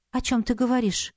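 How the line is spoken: Confused reply. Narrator (Russian): растерянно произнесла в ответ

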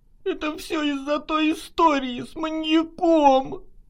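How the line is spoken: Sobbing. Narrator (Russian): Прорыдала она

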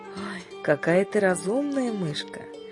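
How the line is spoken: Measured storytelling voice. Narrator (Russian): размеренным голосом

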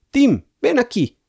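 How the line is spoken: Shout. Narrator (Spanish): gritó Julián

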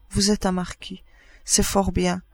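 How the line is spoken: Almost timid. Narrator (French): dit presque timidement

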